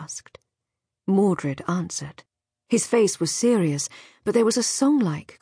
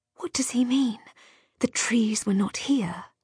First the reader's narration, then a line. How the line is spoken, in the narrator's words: she whispered to Brangien